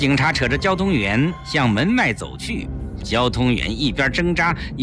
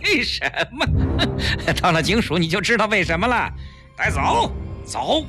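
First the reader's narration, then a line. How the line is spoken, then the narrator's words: Sinister laugh. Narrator (Chinese): 带头的警察阴险地笑了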